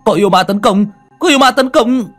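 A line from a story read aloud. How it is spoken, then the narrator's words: Shouting. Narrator (Vietnamese): Tiếng hét của hắn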